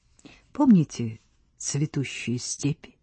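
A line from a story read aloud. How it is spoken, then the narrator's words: Whispered. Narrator (Russian): шепнула Рита Вальдемару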